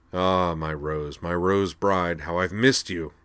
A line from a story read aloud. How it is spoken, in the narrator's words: he said more loudly